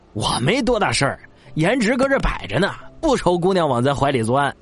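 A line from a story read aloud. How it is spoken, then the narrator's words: Sniffling, forced laugh. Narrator (Chinese): 乾隆吸溜两下鼻涕，干笑着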